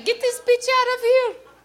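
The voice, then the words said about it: Whiny impression of Saddam Hussein. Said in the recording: “I think that's a pretty good impression. ... How do you know in English he doesn't sound just like me? ... Whiny”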